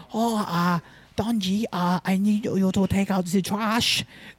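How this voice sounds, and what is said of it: Imitates a mother's Asian accent. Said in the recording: “the only one I know is to impersonate my mom... make fun of Asian accents with my mom... how thick is her accent?... you know the stereotype of an Asian lady?... Her accent's not horrible”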